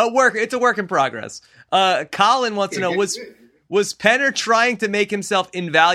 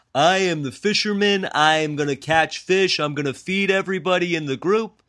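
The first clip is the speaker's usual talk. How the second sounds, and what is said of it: Imitates another person's voice. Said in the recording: “That's a very good Penner impression.”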